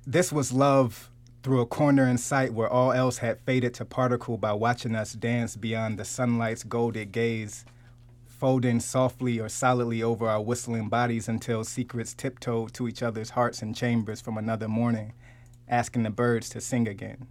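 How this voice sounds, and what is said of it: Poet voice, recited poem. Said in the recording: “put on my poet voice”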